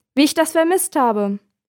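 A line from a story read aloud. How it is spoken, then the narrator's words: Called out. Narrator (German): ruft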